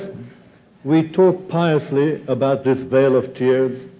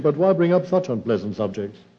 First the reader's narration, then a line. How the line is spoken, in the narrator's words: answered, adding quickly